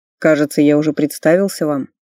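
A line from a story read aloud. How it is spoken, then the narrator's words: Mocking reminder. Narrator (Russian): насмешливо напомнил блондин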